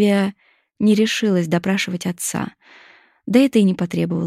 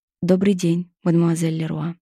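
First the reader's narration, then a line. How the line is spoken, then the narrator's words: Timid reply. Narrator (Russian): Он робко отвечал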